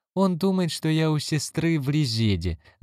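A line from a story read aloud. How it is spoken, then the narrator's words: Laughing. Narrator (Russian): засмеялась Синди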